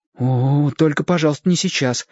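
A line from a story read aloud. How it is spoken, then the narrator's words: Frightened answer. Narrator (Russian): испуганно ответил Шестипалый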